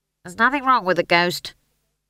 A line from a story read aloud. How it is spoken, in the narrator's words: snapped Howell